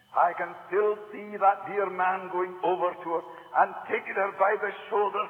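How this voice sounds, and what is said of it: Strong Isle of Lewis Scottish accent. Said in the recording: “The accent is horrible and the sound quality is worse... The Isle of Lewis accent... It's hard for Americans to understand”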